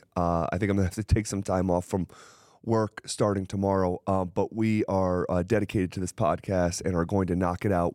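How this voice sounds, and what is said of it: Weak, sick-sounding voice. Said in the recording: “my voice is very weak. Been fighting something off for quite some time.”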